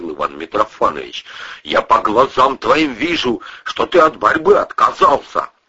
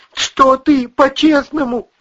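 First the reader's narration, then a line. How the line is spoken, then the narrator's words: Pleading. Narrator (Russian): взмолился Вась-Вась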